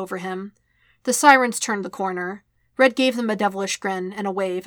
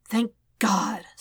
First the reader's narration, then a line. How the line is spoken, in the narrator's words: Spidey breathed